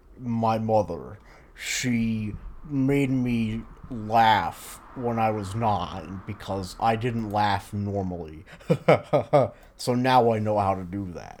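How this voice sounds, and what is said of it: Imitates another person's voice. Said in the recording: “That was just me doing an impression of the guy in Mindhunter”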